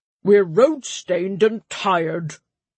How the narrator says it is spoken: Brother Dimion grumbled

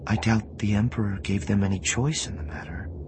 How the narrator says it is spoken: Organa Solo said, her voice suddenly gentle

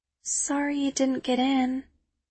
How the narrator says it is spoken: she says, her voice tiny, her eyes sorrowful

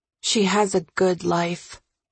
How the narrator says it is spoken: I say quietly

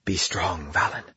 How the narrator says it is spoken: she'd whispered

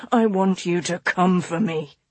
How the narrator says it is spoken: he said roughly against her lips

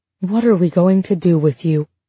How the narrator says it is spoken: Plath said, gently

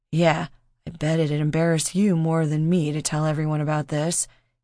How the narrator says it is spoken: he muttered

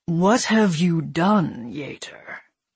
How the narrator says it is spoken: he asked her, his voice low and growling

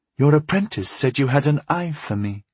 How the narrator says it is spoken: she said in a sultry voice

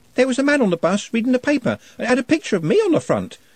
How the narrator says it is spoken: she said excitedly

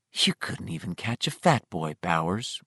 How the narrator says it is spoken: one of them whispered

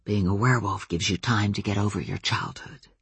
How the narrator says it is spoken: Adam whispered into Ben's ear

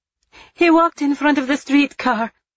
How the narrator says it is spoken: Eva cried out, this time in Italian

